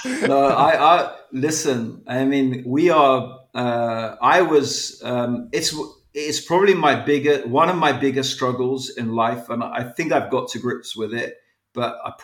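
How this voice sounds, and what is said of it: British accent. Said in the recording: “You sound British.”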